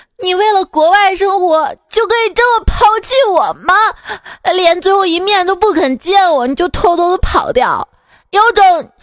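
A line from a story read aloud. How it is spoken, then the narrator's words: Sobbing loudly. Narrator (Chinese): 一姑娘大哭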